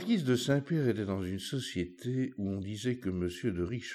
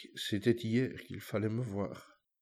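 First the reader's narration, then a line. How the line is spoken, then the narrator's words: Pathetic, plaintive tone. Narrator (French): dit-elle d'un ton pathétique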